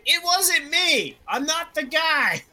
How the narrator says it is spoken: he began yelling

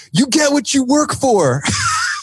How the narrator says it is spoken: He yells

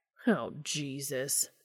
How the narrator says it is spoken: Dean groans

